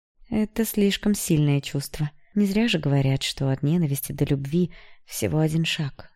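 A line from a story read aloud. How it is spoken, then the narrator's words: Said sadly. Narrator (Russian): печально произнесла Алекса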